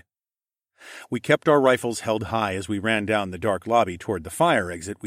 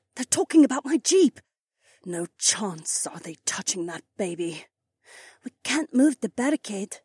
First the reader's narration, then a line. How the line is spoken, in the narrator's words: Haywan whispered